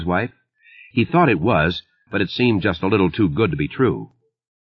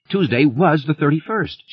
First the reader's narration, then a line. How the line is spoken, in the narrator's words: she cried to her husband